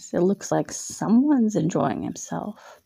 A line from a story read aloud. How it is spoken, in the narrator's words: she said, her voice teasing